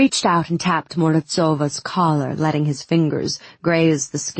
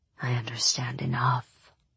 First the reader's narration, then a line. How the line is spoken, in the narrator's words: he said softly